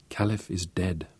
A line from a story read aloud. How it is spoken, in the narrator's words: Magda whispered